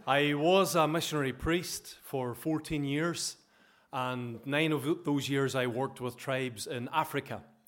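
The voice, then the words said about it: Northern Irish accent. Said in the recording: “I come from Ballaghy in County Derry, so hopefully you understand my accent okay”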